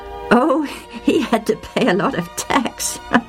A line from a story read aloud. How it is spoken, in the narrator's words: I said, laughing